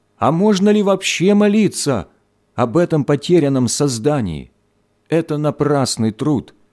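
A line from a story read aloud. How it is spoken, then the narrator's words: Frantic woman shouting. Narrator (Russian): Женщина вне себя закричала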